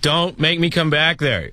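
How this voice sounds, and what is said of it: Stern parent voice. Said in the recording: “talk like a parent ... Now that's pretty good. That one kind of sounded like my dad.”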